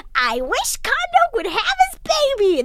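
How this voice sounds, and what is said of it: Cartoon character voice. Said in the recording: “You do a good Timmy voice”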